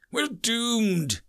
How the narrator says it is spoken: moaned

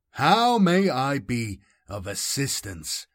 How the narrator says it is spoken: UR-025 boomed

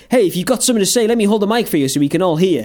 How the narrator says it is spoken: we rattle on quite quickly

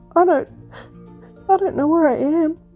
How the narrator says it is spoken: sobbed Cuddlepie

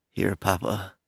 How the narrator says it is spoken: she said in a sleepy voice

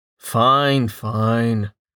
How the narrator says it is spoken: Rain said with a sigh

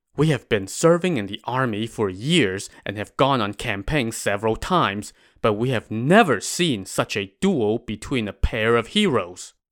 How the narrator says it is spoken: the soldiers whispered to each other

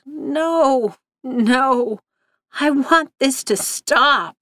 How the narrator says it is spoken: He moaned

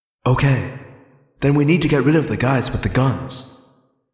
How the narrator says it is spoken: Rachel said calmly

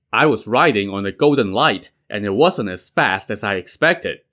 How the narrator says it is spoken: Jade Tripod said

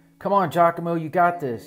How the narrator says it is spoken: yelled the coach from the dugout

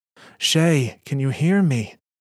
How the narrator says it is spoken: Shayura screams an endless wail into the scalding Mercurian sky

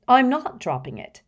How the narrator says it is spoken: said Hermione firmly

